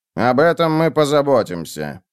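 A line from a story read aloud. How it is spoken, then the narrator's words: Gloomy. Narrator (Russian): мрачно сказал Кассата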